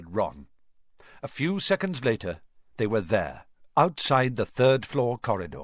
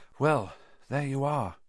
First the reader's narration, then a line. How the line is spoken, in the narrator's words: Harry said quietly